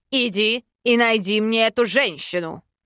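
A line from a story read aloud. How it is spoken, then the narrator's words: Barked command. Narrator (Russian): рявкнул король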